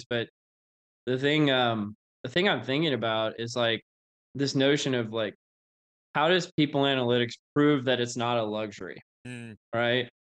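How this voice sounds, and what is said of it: Flat monotone voice, sounds sick. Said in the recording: “I know I seem kind of monotone today, but I'm actually feeling pretty sick right now”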